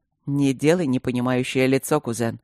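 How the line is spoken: Snort. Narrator (Russian): хмыкнул блакориец

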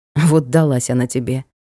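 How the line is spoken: Hmphing. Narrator (Russian): хмыкнул Ник

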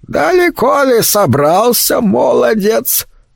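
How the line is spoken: Toothless mumble. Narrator (Russian): прошамкала она

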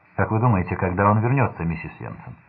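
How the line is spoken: Cold calm voice. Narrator (Russian): сказала холодным, спокойным голосом

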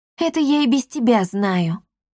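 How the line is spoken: Gloomy. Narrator (Russian): мрачно сказала Дарина

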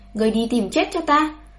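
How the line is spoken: Angry shout. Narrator (Vietnamese): Đại tướng quân vẫn nộ quát

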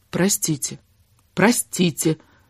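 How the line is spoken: Whisper. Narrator (Russian): зашептала она

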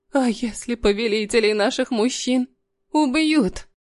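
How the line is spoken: Trembling voice. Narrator (Russian): спросила она дрожащим голосом

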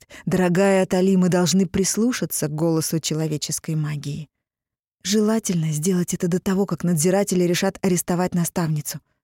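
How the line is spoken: Plain. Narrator (Russian): сказала я

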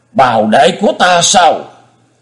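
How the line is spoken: Hissing. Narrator (Vietnamese): Nhất Chưởng Đoạn Hồn rít lên

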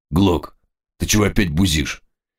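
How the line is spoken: Tense voice. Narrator (Russian): официант напряженным голосом произнес

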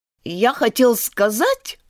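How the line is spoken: Offended tone. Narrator (Russian): обиженно проговорил Додо

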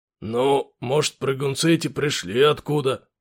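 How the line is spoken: Uncertain low drone. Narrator (Russian): неуверенно прогудел сержант

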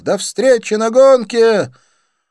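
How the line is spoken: Shouted. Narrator (Russian): крикнув

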